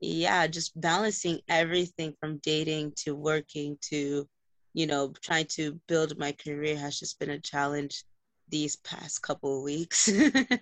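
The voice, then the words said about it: Tired-sounding voice. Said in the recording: “I sound tired as fuck”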